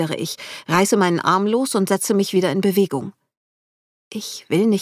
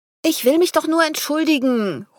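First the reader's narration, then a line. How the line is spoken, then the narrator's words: Calling loudly after. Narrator (German): ruft laut hinterher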